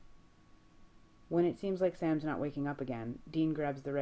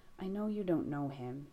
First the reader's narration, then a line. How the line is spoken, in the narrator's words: Jess murmurs